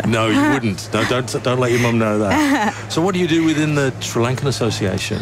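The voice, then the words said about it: English accent. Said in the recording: “You see, I still sound English... I don't even sound the tiniest bit Australian... I can't get rid of this accent.”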